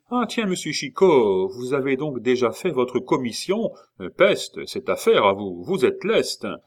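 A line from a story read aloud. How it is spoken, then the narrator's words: Shouted. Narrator (French): le cornette lui cria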